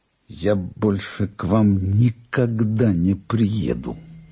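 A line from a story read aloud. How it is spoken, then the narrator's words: Quiet, angry. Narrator (Russian): Я сердито смотрю на дедушку, тихо говорю ему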